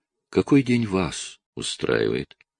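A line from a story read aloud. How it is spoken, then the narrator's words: Tender. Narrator (Russian): Я нежно отвечаю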